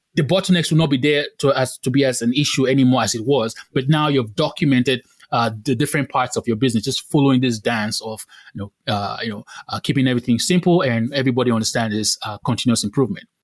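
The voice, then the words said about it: Very fast nonstop speech. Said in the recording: “I thought I was a fast talker. You're just at it, ... just nonstop ... I'm talking too fast”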